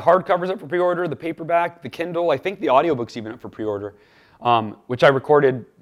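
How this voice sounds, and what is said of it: Hoarse, strained voice. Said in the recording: “my voice, by the way, is very hoarse ... two days uh, in the studio”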